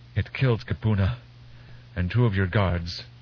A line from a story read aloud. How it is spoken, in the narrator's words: Kenya gasped